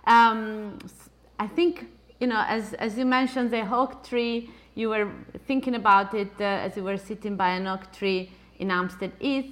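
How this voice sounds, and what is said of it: Italian accent. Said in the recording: “because of my Italian accent.”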